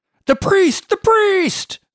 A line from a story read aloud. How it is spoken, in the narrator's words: all screamed